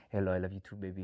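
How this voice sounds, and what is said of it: Nigerian-sounding accent, not British. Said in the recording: “he was sounding not so UK-ish and more like maybe a scammer from Nigeria”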